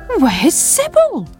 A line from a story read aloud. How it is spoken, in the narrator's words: cried Sam